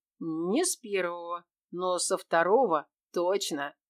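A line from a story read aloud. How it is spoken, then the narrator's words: Amused, close to ear. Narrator (Russian): хмыкнув, сказал Кир, склонившись к моему уху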